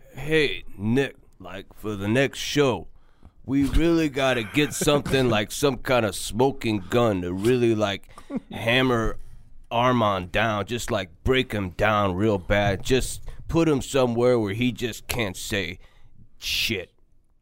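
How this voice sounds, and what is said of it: Tough hitman-like imitated voice. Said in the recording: “You sound like a hitman.”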